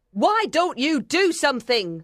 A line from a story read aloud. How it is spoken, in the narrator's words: She yelled